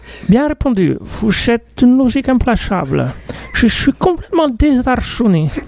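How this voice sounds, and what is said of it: Put-on Icelandic accent, hard to understand. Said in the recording (French): “Je comprends rien à son accent ... mon accent islandais ressemble plus un peu portugais”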